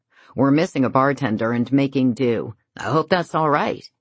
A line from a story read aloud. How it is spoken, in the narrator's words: he says